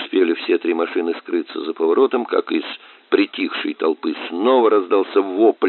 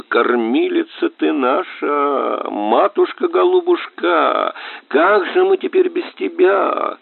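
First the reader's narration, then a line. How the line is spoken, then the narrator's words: Old woman wailing wildly. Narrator (Russian): Старая женщина дурным голосом завыла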